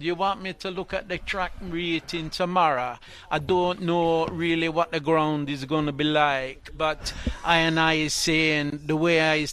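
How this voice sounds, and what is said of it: Put-on Rastafarian accent. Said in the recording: “can you give it to us in your Rastafarian accent? ... In my Rasta sound”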